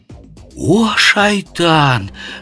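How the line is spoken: Horrified gasp, many voices. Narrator (Russian): с ужасом выдохнули воины

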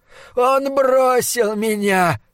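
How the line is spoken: Sobbed. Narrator (Russian): прорыдал Чандлер

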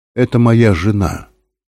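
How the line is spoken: Calm. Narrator (Russian): сказал он спокойно

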